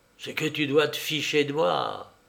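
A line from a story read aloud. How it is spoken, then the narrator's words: Low voice. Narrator (French): Elle lui dit à voix basse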